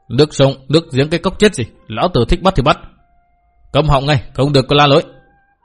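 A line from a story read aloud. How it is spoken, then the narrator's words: Harsh shout. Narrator (Vietnamese): gã nọ cất tiếng quát bảo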